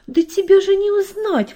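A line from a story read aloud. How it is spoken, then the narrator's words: Father exclaiming. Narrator (Russian): воскликнул папа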